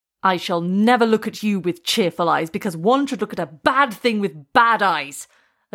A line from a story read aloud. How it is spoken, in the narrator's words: Ajayi shouted